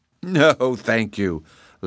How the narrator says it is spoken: laughed Polychrome

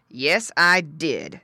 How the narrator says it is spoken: said Don, growling in his deep voice

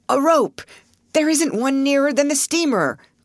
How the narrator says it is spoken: cried Mr

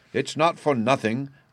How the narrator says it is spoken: growled the angry father

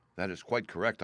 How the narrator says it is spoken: I answered

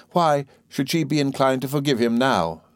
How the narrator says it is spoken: said my mother rather sharply

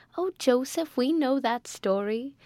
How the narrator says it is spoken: said Amelia, laughing

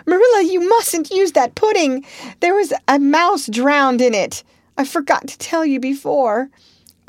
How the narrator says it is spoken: shrieked out

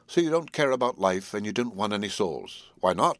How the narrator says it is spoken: I put my question quickly and somewhat sternly on purpose to disconcert him

